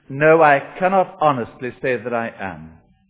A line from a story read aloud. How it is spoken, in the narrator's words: said the Scotsman